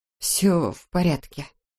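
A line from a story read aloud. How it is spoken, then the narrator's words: Muttered. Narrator (Russian): пробормотала Эбби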